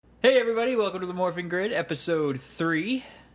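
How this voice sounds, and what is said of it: Scratchy, congested voice from a cold. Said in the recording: “I have a cold. So, I apologize if my voice sounds weird and scratchy”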